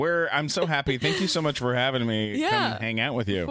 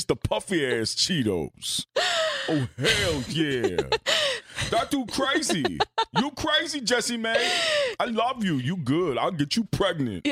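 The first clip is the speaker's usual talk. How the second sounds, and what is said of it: Tracy Morgan impression. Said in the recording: “good Tracy Morgan impression”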